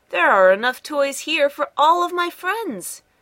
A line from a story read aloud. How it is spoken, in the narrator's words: exclaimed